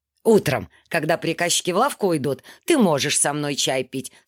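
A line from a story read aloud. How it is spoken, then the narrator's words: Plain. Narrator (Russian): сказал он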